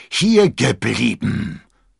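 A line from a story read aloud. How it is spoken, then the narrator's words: Thundering. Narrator (German): donnerte der Musketier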